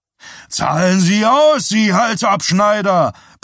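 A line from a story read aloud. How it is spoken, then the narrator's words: Bellowing. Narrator (German): brüllte Bernard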